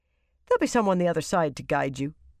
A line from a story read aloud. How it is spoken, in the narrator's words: he barked a laugh